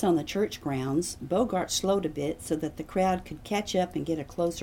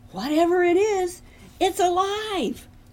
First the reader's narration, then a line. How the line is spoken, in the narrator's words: A woman screamed